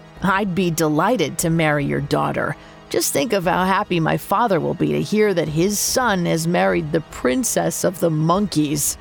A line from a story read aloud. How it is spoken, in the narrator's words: In between his bursts of giggling, Juan managed to say